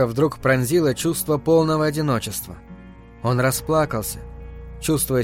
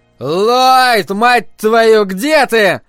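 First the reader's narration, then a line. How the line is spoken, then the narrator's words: Yelling. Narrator (Russian): заорал он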